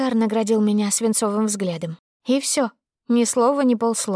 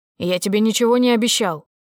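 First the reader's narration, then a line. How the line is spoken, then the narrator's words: Barked. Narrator (Russian): рявкнул он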